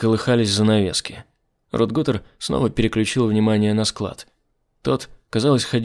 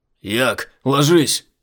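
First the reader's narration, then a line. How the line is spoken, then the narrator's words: Shout. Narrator (Russian): крикнул Айзек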